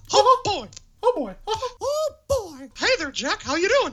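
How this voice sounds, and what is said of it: Mickey Mouse cartoon voice impression. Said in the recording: “I can do a pretty good Mickey Mouse.”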